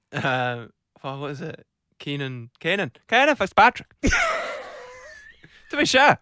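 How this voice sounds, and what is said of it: Bad put-on Irish accent. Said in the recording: “Your Irish accent, that on the subject of accents, yours is terrible ... Give us a bit of Irish”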